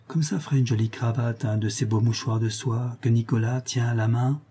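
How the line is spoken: Low voice. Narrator (French): dit tout bas François à sa petite sœur

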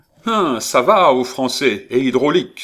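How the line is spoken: Exclaimed. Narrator (French): s'écria-t-il en apercevant Saladin

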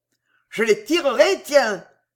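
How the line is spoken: Dwarf exclaiming joyfully. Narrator (French): s'écria le nain rayonnant de joie

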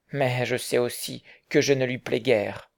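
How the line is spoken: Sighed. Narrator (French): soupira William

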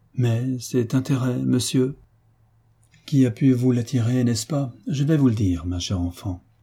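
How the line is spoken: Timid, surprised girl. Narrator (French): la jeune fille, de plus en plus surprise, lui dit timidement

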